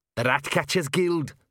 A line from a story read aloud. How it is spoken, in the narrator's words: snarled Arthur